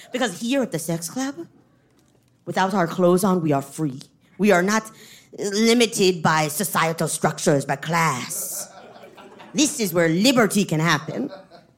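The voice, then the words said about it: Bad put-on French accent. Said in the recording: “I'm going to do a bad French accent.”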